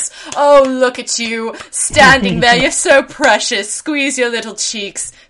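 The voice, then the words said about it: Condescending rich-person caricature voice. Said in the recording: “that's my impression of rich people”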